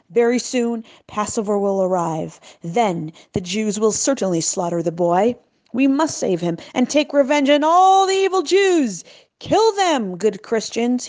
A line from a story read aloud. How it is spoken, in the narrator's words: screamed